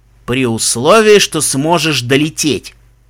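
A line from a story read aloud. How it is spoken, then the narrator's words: Angry retort. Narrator (Russian): зло парировал Даггер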